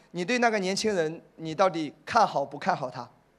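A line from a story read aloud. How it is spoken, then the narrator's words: Plain. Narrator (Chinese): 这个牧师说了一句话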